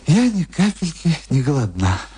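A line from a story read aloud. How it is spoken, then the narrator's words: Sighing. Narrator (Russian): вздохнула моя гостья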